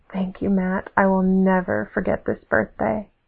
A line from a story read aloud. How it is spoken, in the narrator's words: It was a long time until we stopped breathing heavy, and I whispered